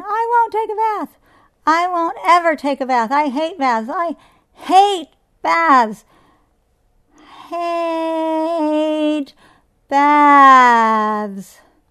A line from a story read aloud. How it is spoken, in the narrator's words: Patsy gave a piercing shriek, yelling